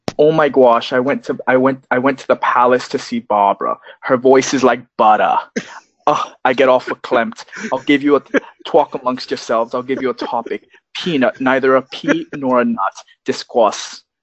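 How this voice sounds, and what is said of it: Old New York Jewish woman voice. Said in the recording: “I can do a really good old Jewish woman from New York ... impersonating Mike Myers doing Linda Frischman ... That's excellent ... Totally committed.”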